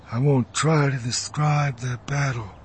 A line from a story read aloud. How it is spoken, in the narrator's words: he said in a low voice